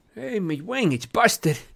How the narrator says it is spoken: he moaned

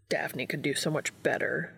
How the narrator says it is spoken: he grumbled

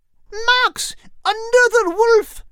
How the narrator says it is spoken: Kate cried

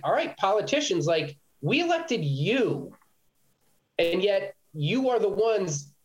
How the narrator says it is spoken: Joe said

